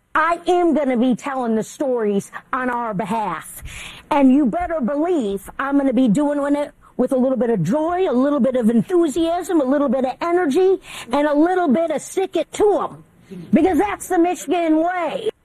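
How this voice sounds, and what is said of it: Goofy Michigan accent. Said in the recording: “a bit of a goofy accent. But it's not that goofy if you're in Michigan ... she sounds pretty wacky”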